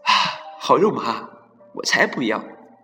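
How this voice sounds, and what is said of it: Quiet, hushed voice. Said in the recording (Chinese): “小声的对豆豆说”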